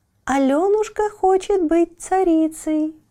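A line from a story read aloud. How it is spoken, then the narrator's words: Merry ringing bell voices. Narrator (Russian): Весело звенели полевые колокольчики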